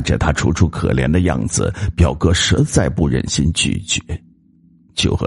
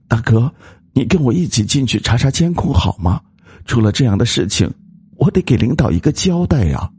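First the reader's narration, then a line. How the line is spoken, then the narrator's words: Fearful pleading. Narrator (Chinese): 那女人因为害怕，表情有些哀求道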